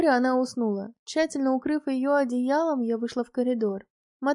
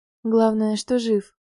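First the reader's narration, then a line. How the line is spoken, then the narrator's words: Relieved exhale. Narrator (Russian): выдохнула я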